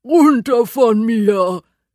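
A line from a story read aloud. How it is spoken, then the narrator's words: Growl. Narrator (German): knurrt er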